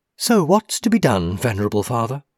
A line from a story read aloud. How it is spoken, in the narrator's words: said gaily